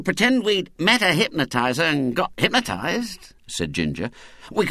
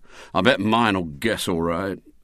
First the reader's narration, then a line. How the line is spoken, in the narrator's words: said William gloomily